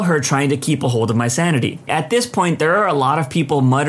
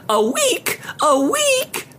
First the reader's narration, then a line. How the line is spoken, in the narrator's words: she screeched like a deranged seagull